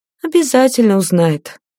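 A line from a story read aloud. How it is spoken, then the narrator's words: Upset sigh. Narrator (Russian): огорченно вздохнула Лиата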